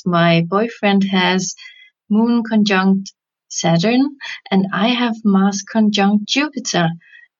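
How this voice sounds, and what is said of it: Speaks with a noticeable accent. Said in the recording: “I'm sorry for my accent”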